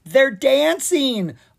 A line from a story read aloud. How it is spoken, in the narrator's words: Anna called out from above